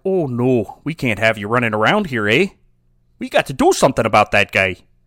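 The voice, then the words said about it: Stereotyped put-on Canadian accent. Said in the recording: “with the Irish accent ... No, this isn't an Irish accent ... a Canadian ... stereotyping them”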